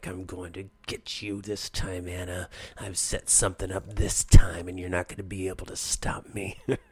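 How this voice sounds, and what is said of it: Villain voice, American accent. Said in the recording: “when you have that American accent, you're talking like ... a performance that's a little more vaudevillian and mustache twisting”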